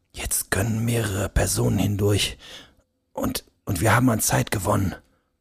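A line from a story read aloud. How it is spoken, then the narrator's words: Quiet speech. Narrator (German): begann leise zu sprechen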